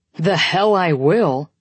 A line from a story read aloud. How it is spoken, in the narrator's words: Corbin growls